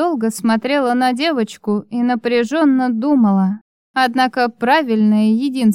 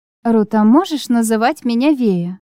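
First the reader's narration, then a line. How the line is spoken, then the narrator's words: Gentle, smiling. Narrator (Russian): продолжала я, ласково смотря на девочку, и улыбнулась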